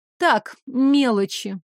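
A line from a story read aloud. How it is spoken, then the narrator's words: Gloomy. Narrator (Russian): мрачно ответила я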